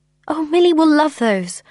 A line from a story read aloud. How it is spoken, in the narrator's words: I cried